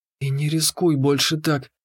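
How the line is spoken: Whisper. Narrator (Russian): прошептала она

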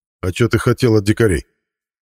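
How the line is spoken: Dismissive snort. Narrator (Russian): хмыкнул Хирч

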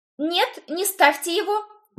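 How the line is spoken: Sharp outcry. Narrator (Russian): выкрикнула я

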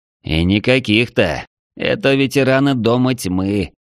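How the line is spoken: Gloomy mutter. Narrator (Russian): хмуро буркнул Балиан

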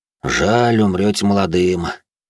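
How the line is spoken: Weary, sighing. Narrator (Russian): тяжело вздохнув, произнес служивый

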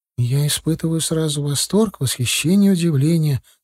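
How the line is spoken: Excited whisper. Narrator (Russian): прошептала мне сидящая рядом Галия

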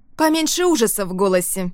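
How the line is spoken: Snapping. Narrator (Russian): огрызнулась Лука из-за спины Рианон

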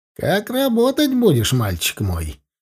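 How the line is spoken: Patronizing tone. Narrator (Russian): ответил он мне покровительственным тоном

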